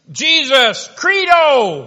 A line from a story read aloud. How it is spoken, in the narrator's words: he shouts out